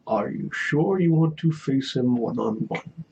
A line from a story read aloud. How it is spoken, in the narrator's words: Mutter to Zayla